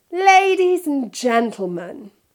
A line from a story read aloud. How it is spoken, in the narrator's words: he said loudly